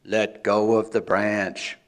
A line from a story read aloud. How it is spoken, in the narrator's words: boomed the voice